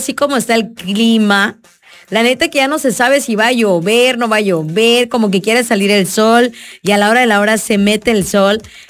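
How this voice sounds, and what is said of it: Hoarse, subdued sick-sounding voice. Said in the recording (Spanish): “andamos algo agripadas ... no puedo estar hablando muy fuerte ... andamos con dolorcito de garganta”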